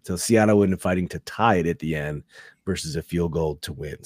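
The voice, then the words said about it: Rough, sick-sounding voice. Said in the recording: “why does ... sound like shite? ... Yeah, I have a little cold, man. I'm coming down with something”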